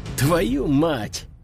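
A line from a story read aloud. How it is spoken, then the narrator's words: Soldiers hissing. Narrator (Russian): зашипели бойцы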